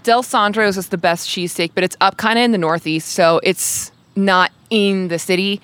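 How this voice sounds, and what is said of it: Philadelphia accent. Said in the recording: “I'm loving this Philly accent.”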